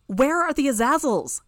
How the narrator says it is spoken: I shouted

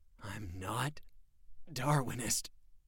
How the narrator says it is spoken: Jack gasped

